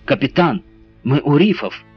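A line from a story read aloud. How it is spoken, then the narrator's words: Exclaimed while running. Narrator (Russian): воскликнул Джон, подбегая к Биллю Галлею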